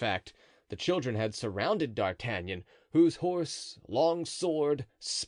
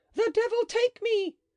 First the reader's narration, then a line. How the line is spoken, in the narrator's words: with fearful bursts of laughter, shouts